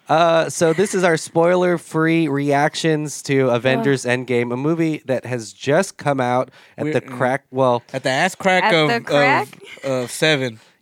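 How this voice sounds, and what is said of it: Sick-sounding voice. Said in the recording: “Are you sick? ... I'm sick. ... If my voice is a little bit different, it's because”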